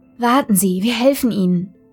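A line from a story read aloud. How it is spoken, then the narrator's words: Melodic young woman's voice. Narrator (German): sagte die junge Arzthelferin mit melodischer Stimme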